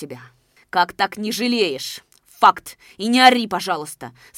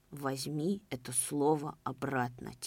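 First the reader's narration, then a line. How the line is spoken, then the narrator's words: Quiet request. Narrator (Russian): тихо попросил Нагульнов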